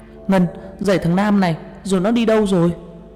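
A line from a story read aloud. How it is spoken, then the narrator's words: Shouted. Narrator (Vietnamese): Tôi chạy đến la lên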